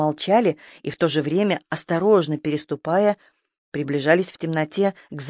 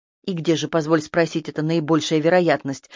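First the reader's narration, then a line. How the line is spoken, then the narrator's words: Irritated question. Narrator (Russian): раздраженно поинтересовался свинопас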